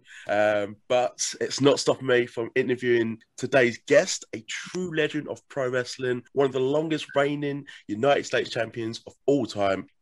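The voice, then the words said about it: Hoarse, partly lost voice. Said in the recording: “My voice has gone a little bit”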